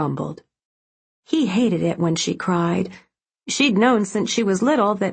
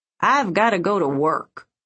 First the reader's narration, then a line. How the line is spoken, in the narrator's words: said gruffly